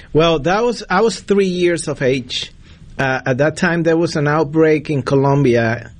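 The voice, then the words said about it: Colombian Spanish accent in English. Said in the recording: “Probably the audience already know by my accent, I'm from Columbia”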